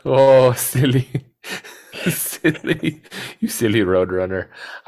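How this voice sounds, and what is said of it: Wile E. Coyote impression with accent. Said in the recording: “Wile E. Coyote ... I don't know why Wile E. Coyote has an accent, but he does.”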